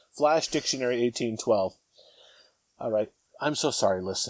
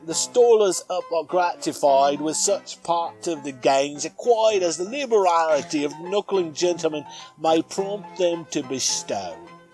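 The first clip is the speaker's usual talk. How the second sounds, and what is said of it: Put-on Cockney chimney-sweep accent, Van Dyke. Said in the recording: “the Cockney accent ... Excellent chimney sweep type accent there. really doing ... Van Dyke, you know, justice. ... Even worse than mine.”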